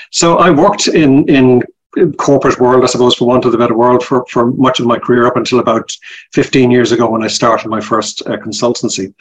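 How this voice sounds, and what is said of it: Irish Dublin accent. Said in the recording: “You can tell by my accent, I'm originally from Ireland. I'm from Dublin... I never lost my accent”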